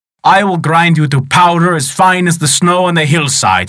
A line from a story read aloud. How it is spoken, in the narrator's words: roared